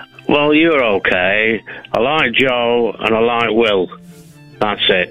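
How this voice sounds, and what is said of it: Yorkshire accent. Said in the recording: “I'm doing my real accent now. I'm from Yorkshire.”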